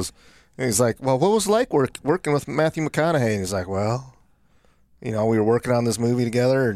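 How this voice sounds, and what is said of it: Usual voice. Nothing is said of it.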